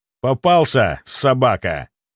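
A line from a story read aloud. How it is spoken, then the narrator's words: Growling. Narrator (Russian): прорычал я ему в лицо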